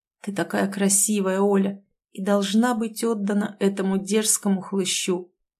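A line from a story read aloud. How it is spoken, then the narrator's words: Quiet, sad. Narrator (Russian): печальным взглядом тихо сказал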